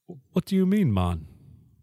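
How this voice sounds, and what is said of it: Bad put-on Jamaican accent. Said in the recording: “Jamaican accent ... You can't do that accent either ... he sucks at it”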